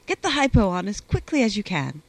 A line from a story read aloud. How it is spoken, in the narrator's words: he said sharply